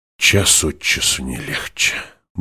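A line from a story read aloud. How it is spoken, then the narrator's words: Through gritted teeth. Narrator (Russian): процедила сквозь зубы Дженни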